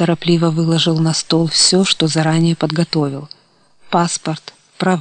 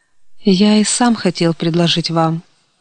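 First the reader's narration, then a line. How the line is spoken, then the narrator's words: Relieved sigh. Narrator (Russian): облегченно вздохнул Илья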